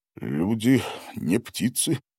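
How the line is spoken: Muttered. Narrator (Russian): пробормотал Гарин

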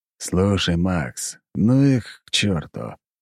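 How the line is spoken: Sleepy mumble. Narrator (Russian): сонно пробормотал Мор

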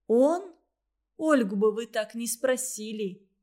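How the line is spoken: Heated indignant exclamation. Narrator (Russian): запальчиво воскликнула Варя

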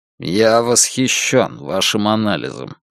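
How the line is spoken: Hollow, muffled voice. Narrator (Russian): глухо промолвил Дилейни

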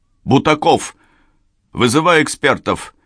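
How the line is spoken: Shouted. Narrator (Russian): крикнул он

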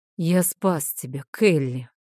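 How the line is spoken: Tired dragon exhale. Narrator (Russian): устало выдохнул дракон

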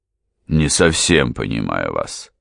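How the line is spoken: Dry baronet. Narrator (Russian): сухо ответил баронет

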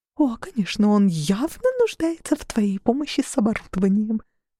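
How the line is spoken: Whispered. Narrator (Russian): прошептала Мод

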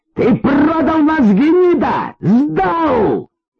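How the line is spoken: Shouted. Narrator (Russian): Он крикнул

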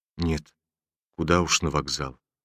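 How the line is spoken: Bitter hopeless whisper. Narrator (Russian): прошептал с горькой безнадежностью Ромашов

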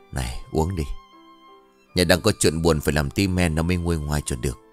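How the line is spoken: Whispering. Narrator (Vietnamese): Họ thì thầm

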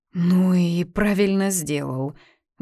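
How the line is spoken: Strained, forced out. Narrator (Russian): выдавила Катя

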